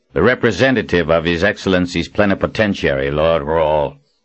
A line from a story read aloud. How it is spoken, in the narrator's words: said in a gruff voice, as if unhappy that this assignment had fallen to him